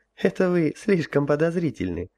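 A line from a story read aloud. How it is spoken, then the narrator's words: Laughing. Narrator (Russian): рассмеялась императрица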